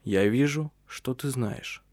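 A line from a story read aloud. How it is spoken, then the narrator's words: Quiet. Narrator (Russian): негромко произнес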